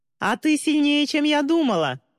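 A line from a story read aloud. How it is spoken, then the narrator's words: Shouted after someone. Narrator (Russian): крикнула мистери ей вслед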